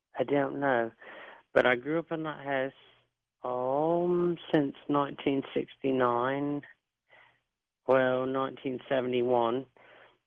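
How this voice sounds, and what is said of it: Slight British accent. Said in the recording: “I'm hearing a little British accent from you. ... You've got a little British accent, not much.”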